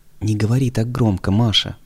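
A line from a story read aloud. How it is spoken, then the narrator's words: Timid warning. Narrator (Russian): предостерег мальчик, робко озираясь кругом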